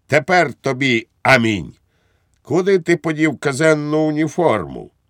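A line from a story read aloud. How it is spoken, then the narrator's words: Triumphant exclamation. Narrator (Ukrainian): вигукнув з тріумфом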